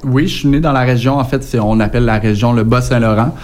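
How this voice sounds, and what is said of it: Quebec French accent. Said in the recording (French): “on a un petit accent qui diffère de la vôtre”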